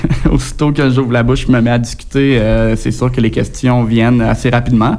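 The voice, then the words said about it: Noticeable regional French accent. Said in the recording (French): “mon accent, c'est une carte de visite pour les gens”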